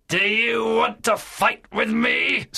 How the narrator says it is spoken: Silver shouted in a terrible voice

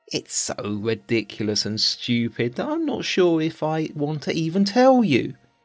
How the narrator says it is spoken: he said

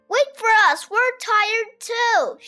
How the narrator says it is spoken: shouted the children

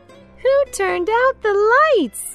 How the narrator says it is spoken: cried Carmen

